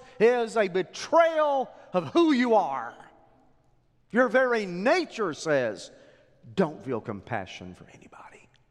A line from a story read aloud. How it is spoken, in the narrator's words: he yells